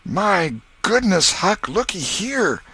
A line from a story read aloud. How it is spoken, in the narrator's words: exclaimed